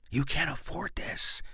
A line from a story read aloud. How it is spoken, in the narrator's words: he hisses in my ear